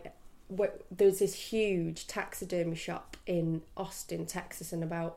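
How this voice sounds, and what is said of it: Usual voice. Nothing is said of it.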